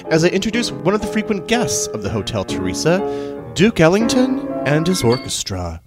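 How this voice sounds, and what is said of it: Smooth jazz DJ radio voice. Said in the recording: “put on my jazz voice... I was a jazz DJ in college, so I have a jazz voice.”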